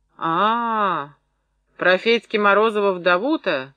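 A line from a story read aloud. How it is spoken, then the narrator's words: Drawn-out drawl. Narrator (Russian): протянул Андрон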